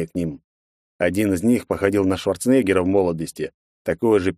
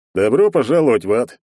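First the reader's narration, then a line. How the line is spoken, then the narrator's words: Big man's cheerful grinning. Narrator (Russian): весело оскалился здоровяк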